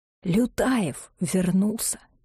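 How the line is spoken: Very quiet, near whisper. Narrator (Russian): произнес он очень тихо, почти шепотом

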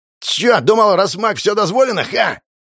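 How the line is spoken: Loud barking shout. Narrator (Russian): гаркнул блондин

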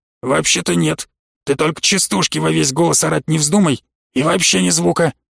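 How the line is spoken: Hissing whisper. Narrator (Russian): Обратился он свистящим шепотом

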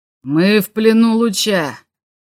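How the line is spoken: Roared. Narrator (Russian): проревел он в ответ

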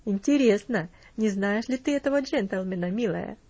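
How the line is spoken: Laughing. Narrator (Russian): засмеялась тетушка Хлоя

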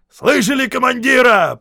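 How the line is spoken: Roaring Scottish sergeant. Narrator (Russian): проревел сержант-шотландец

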